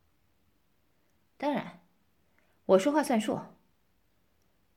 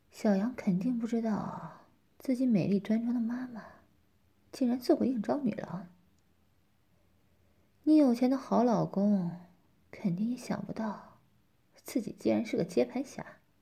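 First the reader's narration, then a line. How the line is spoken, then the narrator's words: Teasing whisper. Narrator (Chinese): 我嬉皮笑脸的 轻吹了一口气，低声耳语道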